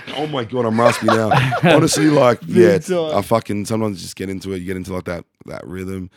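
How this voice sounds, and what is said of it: Strained, failing voice. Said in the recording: “My voice fucking died ... man, my voice is dying”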